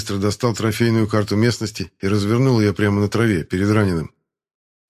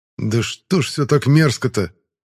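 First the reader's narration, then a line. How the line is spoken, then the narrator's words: Angry. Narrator (Russian): зло произнес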